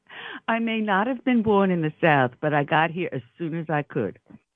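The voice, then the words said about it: New York accent. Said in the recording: “I listen to your accent. You're, like, born and raised in the five boroughs”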